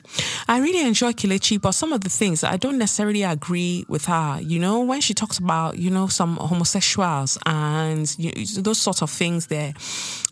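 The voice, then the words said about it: Put-on Nigerian accent. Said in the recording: “I've done that Nigerian accent for a reason.”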